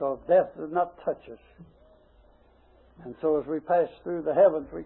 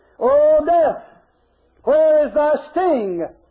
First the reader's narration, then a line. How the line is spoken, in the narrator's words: we will shout out as our valedictory